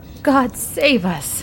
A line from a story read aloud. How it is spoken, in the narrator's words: cried Andy